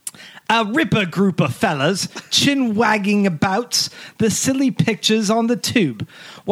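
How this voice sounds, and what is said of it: Put-on accent. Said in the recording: “I have to read this one in an accent ... I'm going to do my best accent”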